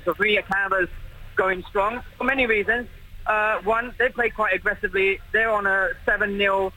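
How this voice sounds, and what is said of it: British accent. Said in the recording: “as you can hear from my accent, I'm British”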